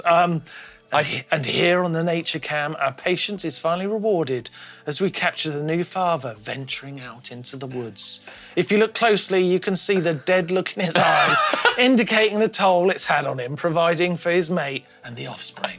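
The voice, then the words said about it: Poor David Attenborough impression. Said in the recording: “in David Attenborough's voice ... I've got to do an impression. I'm terrible at impressions. ... The impression was terrible.”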